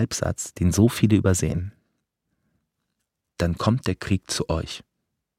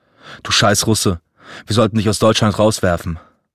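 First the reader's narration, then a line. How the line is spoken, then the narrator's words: Sharp sudden outburst. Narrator (German): Die Worte explodierten in der schwülen Luft, scharf, unerwartet, wie ein Schlag ins Gesicht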